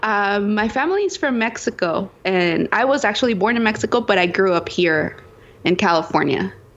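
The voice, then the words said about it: Spanish accent. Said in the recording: “you have a Spanish accent”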